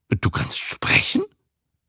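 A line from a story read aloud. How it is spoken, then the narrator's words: Disbelieving stammer. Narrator (German): stotterte Herr Greggs und traute seinen Sinnen nicht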